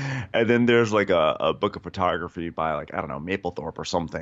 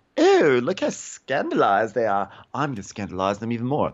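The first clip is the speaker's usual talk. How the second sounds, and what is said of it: Poor imitation of Julia's accent. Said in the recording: “my terrible Julia accent”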